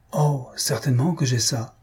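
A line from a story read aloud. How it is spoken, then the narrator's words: Exclamation. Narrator (French): s'écria Pistache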